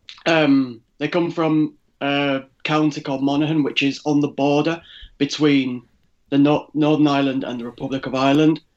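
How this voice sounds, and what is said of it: Northern English accent. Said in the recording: “you have an English accent ... I sound suspiciously non-Irish ... I was born in Leeds in the north of England, so that's where my accent comes from”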